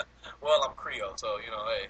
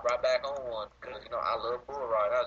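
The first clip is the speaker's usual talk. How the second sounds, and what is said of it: Convincing put-on Southern accent. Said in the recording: “You got that southern accent down pretty good.”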